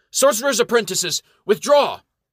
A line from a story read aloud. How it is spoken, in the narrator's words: the Baron of Amherst exults and shouts with what is left of his voice